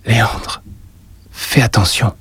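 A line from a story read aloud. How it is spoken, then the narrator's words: Murmured. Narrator (French): murmura-t-elle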